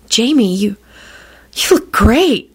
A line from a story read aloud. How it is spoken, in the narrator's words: she breathed